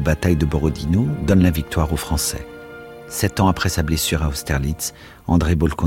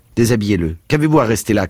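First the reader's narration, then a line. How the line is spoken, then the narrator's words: Irritated shout. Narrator (French): cria-t-il d'un ton irrité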